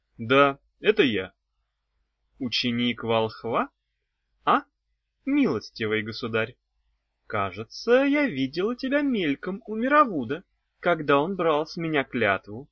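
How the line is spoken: Plain. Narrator (Russian): спросила она

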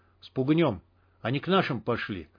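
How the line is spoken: Quiet. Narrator (Russian): так же тихо произнес сталкер

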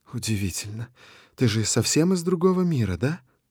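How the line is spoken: Sensual soft female voice. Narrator (Russian): Ее голос звучит чувственно и мягко

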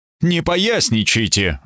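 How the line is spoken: Irritated. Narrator (Russian): бросил Эбергард раздраженно

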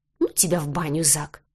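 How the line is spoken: Grumble. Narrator (Russian): буркнула я

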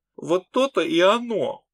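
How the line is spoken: Sobbing. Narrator (Russian): похоже, Фолька Ильяцию всхлипывал

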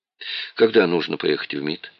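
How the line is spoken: Dejected voice. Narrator (Russian): спросил упавшим голосом

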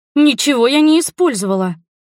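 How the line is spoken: Indignant shout. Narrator (Russian): возмущенно крикнула я

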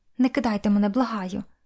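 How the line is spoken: Soft, quiet speech. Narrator (Ukrainian): тихо промовивши

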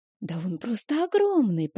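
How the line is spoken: Whisper. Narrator (Russian): прошептала Стэсси

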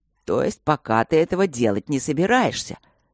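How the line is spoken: Even more delighted. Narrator (Russian): Еще больше обрадовался папа

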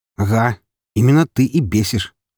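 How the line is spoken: Angry. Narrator (Russian): зло произнес Артем

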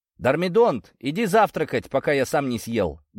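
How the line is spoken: Loud insistent call, grandfather. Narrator (Russian): громко настойчивым тоном позвал он внука

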